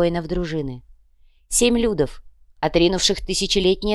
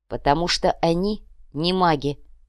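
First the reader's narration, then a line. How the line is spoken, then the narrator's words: Angry curt retort. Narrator (Russian): зло отрезала Милана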